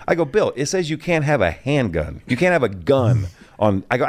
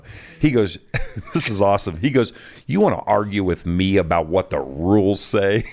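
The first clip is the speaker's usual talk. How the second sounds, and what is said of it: Imitates another person's voice. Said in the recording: “does a pretty good Bill impression.”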